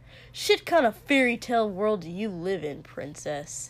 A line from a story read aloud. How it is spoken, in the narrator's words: Shoto chuckled once, coldly